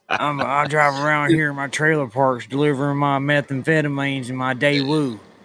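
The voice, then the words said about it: Put-on Texas country accent. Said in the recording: “it sounded more like a Texas accent than a North or South Carolina accent ... It sounded country, man. It sounded country.”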